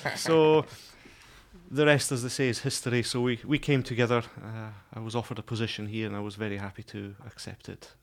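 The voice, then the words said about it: Scottish accent. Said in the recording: “it sounds like you're Scottish ... The accent is Scottish.”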